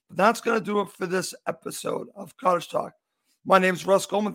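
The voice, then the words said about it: Slightly hoarse voice. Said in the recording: “I am a little hoarse here”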